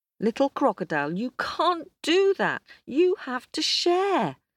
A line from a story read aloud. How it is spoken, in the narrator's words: She was just about to shout